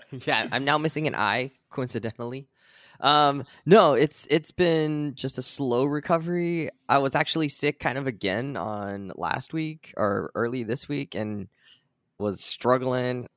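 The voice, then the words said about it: Voice still somewhat rough. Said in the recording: “I got mostly a voice back ... My voice is mostly recovered. It's still kind of bad.”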